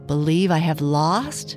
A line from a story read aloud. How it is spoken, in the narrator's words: repeated Dame Grumble scornfully